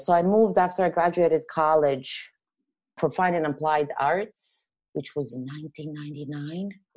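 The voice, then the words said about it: Serbian accent. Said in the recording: “I'm not originally from here, hence the accent that I can't get rid of. But I'm from Europe, from Serbia.”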